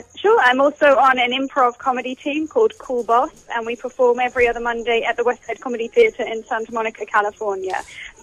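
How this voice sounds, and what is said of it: British accent. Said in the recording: “As long as you act in that accent ... bona fide Brit”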